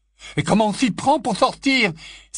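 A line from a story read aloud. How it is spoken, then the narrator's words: Shouting over screams. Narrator (French): s'exclama Ron, sa voix dominant les hurlements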